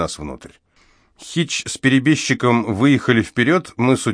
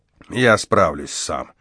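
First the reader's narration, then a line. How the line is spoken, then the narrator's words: Grumbling. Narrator (Russian): проворчал он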